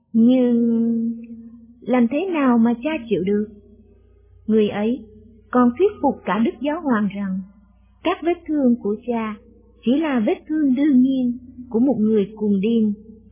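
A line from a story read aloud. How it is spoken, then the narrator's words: Stammering. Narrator (Vietnamese): Thầy ấp úng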